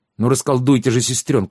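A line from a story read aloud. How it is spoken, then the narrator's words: Wailed loudly. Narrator (Russian): завопил Халанбери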